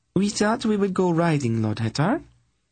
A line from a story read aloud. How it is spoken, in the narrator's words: Sinedra replied brightly, trying to outface him